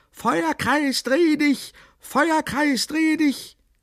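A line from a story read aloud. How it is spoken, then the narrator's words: Screamed. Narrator (German): Nathanael schrie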